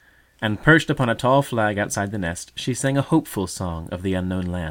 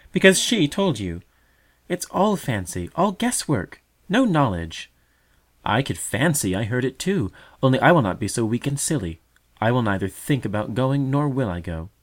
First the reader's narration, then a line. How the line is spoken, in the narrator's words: cried the brother